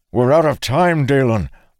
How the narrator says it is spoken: Arik called out urgently

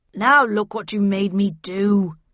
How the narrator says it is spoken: he growled

